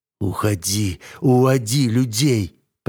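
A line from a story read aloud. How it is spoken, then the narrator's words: Through gritted teeth. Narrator (Russian): процедил некромант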